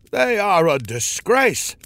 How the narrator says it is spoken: one of the elders exclaimed

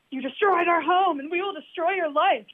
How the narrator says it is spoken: one miniature man, in anger, yelling

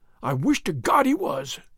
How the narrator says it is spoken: cried

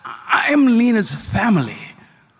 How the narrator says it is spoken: cried Yaakov

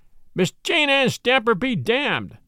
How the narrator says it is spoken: shrieked

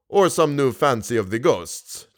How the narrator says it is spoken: chuckled the Persian

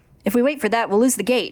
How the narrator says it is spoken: he snaps

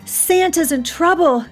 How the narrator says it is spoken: she cried

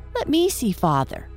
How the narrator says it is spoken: Michael begged eagerly

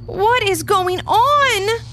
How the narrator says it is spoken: Alice shouted

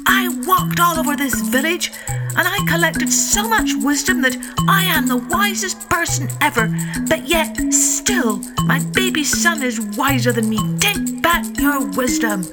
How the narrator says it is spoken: he shouted

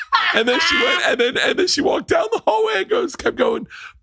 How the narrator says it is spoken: Bert cries

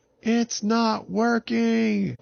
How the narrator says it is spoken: Jerry yelled up to Avin

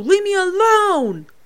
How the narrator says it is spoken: He cries

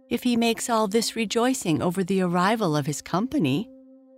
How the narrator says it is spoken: said Beauty, trying to laugh

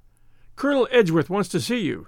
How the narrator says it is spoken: he panted

